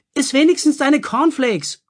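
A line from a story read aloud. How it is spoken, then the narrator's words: Mother calling after. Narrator (German): rief seine Mutter ihm hinterher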